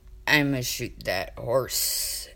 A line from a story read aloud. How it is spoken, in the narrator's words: he mumbled authoritatively, burying his face in his arm